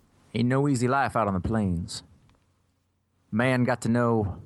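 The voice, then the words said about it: Bad put-on accent. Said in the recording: “it always ends up into George Bush now... my voice is exactly like all impressions of George Bush... it's very terrible”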